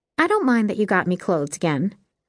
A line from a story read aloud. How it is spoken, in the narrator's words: Jess said cheerfully